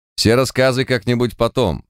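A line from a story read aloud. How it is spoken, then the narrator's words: Stern declaration. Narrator (Russian): строго заявил Март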